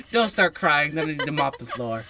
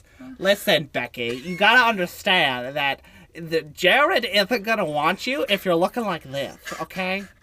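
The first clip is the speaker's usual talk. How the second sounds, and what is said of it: Valley Girl voice. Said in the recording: “do a Valley Girl voice ... I'm good with my voice impressions”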